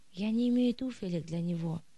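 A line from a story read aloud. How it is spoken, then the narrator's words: Sighing. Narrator (Russian): вздохнула мать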